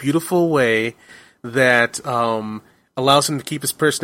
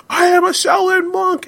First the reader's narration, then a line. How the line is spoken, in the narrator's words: he shouts out